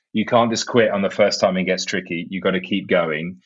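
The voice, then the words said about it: English accent. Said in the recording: “your great English mind and hear more of your English accent?”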